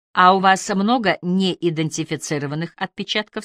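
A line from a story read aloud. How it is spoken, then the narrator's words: Plain question. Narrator (Russian): спросил Бельман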